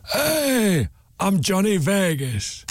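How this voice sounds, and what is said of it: Deliberately bad impression of another's voice. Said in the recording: “I do a really bad impression. ... That's awful, isn't it? You don't talk like that, do you, Johnny? ... you don't sound like the impression I just did at all.”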